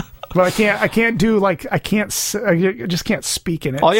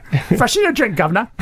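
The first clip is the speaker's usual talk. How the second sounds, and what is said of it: Put-on British accent. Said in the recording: “I can only do certain phrases with a British accent. I can't just speak in a British accent.”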